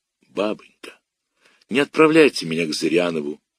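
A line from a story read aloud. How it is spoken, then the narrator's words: Quiet plea. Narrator (Russian): тихо сказал я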